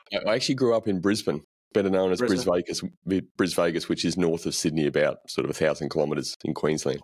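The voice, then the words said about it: Australian accent. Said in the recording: “I love the Australian accent”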